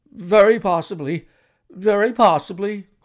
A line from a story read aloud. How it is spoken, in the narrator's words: cried Mr